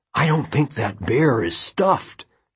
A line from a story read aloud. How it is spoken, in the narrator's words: Josh whispered excitedly